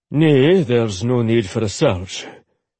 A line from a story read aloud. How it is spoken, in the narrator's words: Ollie corrected grimly